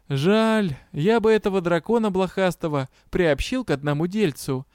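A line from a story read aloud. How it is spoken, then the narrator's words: Heavy sigh. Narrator (Russian): Юр тяжело вздохнул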